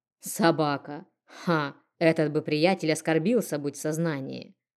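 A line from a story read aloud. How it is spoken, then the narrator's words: Snorting man. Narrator (Russian): Хмыкнув, мужчина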